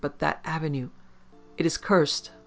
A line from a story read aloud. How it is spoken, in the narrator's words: Ali stammered